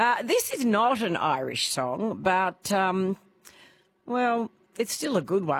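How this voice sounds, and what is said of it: Usual voice. Nothing is said of it.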